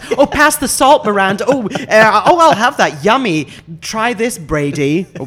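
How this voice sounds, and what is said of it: Imitates chattering brunch diners. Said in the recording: “I can do like really good impression of like people being busy at that table”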